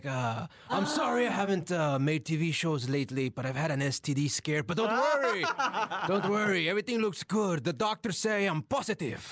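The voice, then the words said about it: Dramatic telenovela narrator character voice. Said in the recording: “What was your character voice? ... He talked like this ... Oh, so he's the narrator of Jane the Virgin.”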